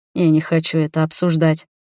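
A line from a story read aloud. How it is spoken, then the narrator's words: Calm male voice. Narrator (Russian): спокойно ответил мужчина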